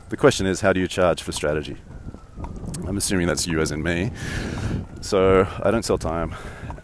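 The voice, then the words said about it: Australian accent. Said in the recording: “this accent that you're hearing right now is Australian”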